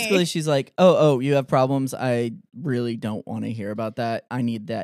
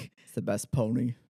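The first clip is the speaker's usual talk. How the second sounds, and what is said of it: Imitates another person's voice. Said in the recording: “Why does her daughter sound like Donald Trump? ... I can't do a Donald Trump impersonation. ... That's good.”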